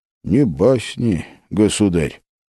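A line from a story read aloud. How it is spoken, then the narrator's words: Very quiet, dejected. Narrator (Russian): очень тихо сказал Малюта и совсем понурился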